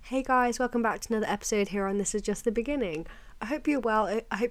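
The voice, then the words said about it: Croaky, hoarse sick voice. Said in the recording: “maybe you can tell in my voice I've still got a bit of a cough, a bit of a sore throat ... my voice is a little bit croaky, a little bit not with it today”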